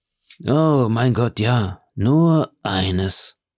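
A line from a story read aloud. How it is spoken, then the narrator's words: Sighing. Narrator (German): sagte der Lucchese mit einem Seufzer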